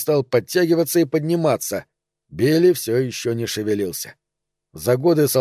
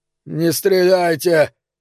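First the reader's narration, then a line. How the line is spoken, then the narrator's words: Hoarse dry-throated plea. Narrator (Russian): хрипло попросил он, в горле у него явно пересохло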